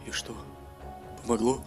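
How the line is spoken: Anxious whisper. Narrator (Russian): с волнением прошептал Бовар

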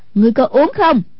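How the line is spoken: Sharp shout. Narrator (Vietnamese): Hoàng Dung quát lên

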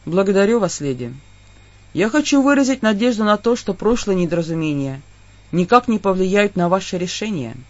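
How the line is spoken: Very quiet. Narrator (Russian): очень тихо сказал

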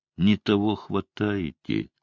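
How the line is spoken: Tired. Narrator (Russian): сказал я устало

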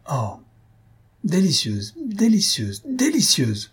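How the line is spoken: Ecstatic exclamation. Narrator (French): s'écria Silvius hors de lui

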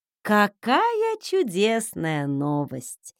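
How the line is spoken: Drawn-out drawl. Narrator (Russian): протянула я

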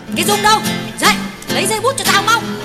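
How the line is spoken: Scolding shout. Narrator (Vietnamese): Tuyết quát con gái

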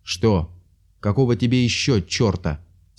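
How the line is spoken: Angry question. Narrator (Russian): сердито спросил фон Вульф

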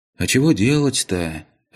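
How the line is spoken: Dejected sigh. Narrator (Russian): сокрушенно вздохнул Пончик

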